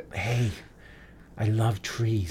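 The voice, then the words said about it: Whispering voice. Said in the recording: “She's whispering to it. ... The whispering.”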